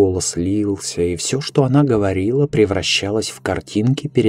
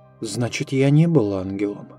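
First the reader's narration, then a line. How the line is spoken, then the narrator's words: Plain. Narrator (Russian): Спросил я наконец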